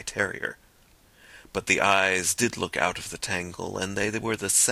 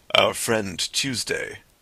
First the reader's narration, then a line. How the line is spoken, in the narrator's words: said the president, in a deep voice, at once of quietude and volume